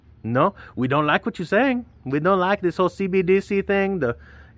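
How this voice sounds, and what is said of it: Put-on foreign-sounding accent. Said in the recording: “I don't even know why I'm talking like that. Is that a French-Canadian accent? No.”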